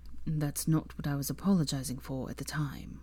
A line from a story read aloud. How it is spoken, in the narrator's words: said softly